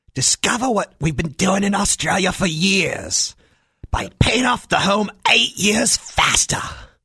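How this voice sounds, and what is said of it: Australian accent, infomercial voice. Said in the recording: “just because you have an Australian accent doesn't make you the king of infomercials.”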